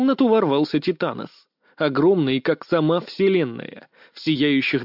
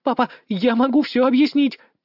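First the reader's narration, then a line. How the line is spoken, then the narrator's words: Squeaked. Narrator (Russian): пискнула Элойна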